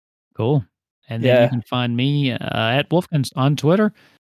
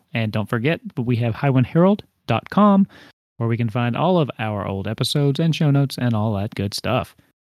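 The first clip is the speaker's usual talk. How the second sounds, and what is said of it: Flight attendant announcement voice. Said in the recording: “You sound like a plane attendant right now.”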